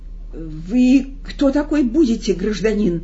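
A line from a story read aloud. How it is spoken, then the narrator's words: Frightened question. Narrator (Russian): испуганно спросил Никанор Иванович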